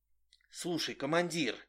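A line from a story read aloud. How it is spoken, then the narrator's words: Fervent whisper. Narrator (Russian): горячо зашептал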